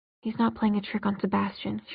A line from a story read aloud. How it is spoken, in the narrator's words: she replied softly